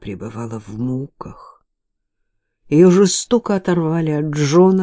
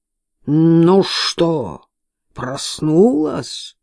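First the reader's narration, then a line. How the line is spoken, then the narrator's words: Growled. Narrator (Russian): прорычал Уильям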